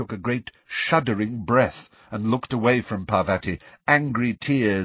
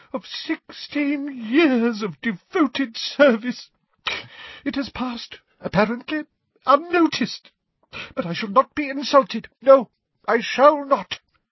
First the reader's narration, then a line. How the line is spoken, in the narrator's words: she choked